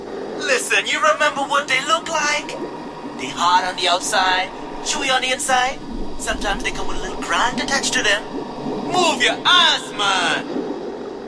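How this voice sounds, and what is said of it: Jamaican Caribbean accent. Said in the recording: “doing his most awesome Jamaican Caribbean accent ever”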